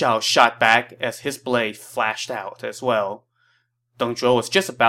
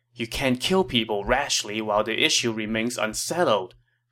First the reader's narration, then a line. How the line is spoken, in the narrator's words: Li Ru said